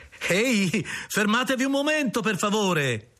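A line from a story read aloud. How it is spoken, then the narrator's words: Cheerful shouting. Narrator (Italian): grida allegramente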